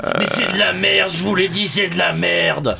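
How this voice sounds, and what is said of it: Imitation of Jean-Pierre Coffe. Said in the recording (French): “Niveau imitation avec Jean-Pierre Coff, c'est dur. ... Mais tu l'avais bien au début. ... Ça fait mal au larynx, quoi.”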